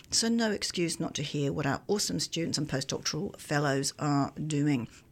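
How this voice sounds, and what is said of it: Congested voice from a cold. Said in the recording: “My voice is a little bit different today because I have got a bit of a head cold.”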